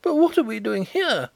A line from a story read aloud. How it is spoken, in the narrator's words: exclaimed Hollyer, pale and horrified